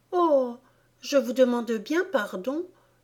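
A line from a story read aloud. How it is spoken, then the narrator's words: Regretful exclamation. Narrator (French): s'écria Alice d'une voix pleine de regrets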